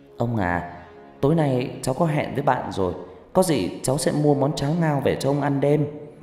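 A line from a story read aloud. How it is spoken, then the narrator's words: Sighing. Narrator (Vietnamese): Ngọc Lam thở dài rồi cô nói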